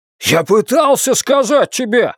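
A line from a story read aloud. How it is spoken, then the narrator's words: Shouted. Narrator (Russian): выкрикнул он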